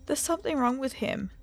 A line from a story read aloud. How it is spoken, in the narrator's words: whimpered, crying